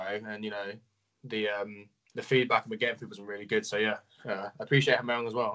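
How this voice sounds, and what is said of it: English accent. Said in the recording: “they might know with your accent ... I'm from England. So, yeah, UK.”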